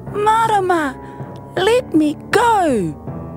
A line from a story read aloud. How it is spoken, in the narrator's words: she shouted